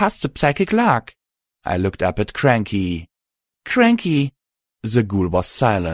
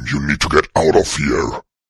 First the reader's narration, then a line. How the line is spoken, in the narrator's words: he growled